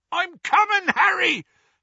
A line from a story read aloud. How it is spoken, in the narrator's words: yelled from out of the darkness